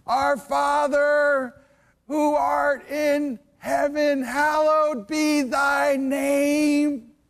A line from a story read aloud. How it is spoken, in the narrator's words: he starts yelling with great passion